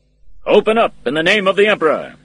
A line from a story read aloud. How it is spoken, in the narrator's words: the captain called out loudly